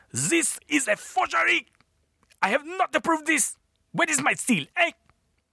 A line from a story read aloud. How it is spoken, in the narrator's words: the king, shouting